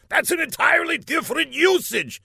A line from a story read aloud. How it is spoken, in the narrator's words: shouted Laszlo